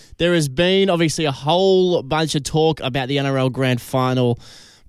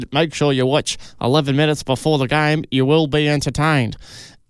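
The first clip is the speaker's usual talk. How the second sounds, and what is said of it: Imitates another person's voice. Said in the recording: “great impression”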